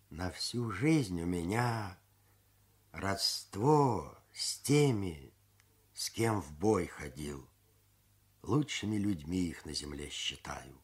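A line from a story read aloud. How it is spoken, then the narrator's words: Thoughtful explanation. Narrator (Russian): И задумчиво пояснил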